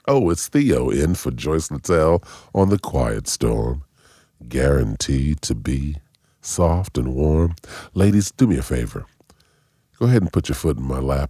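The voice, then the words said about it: Smooth late-night radio host voice. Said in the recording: “Do your Quiet Storm voice.”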